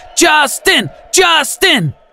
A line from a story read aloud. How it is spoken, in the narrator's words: at least 100 Beliebers at the door screaming